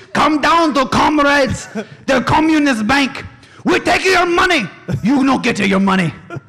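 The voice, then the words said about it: Mock Russian accent. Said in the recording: “Russian accent”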